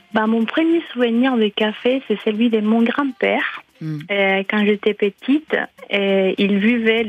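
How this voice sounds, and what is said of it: French with Ecuadorian accent. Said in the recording (French): “ce délicieux accent comme rappel de vos racines, vous êtes originaire de l'Équateur”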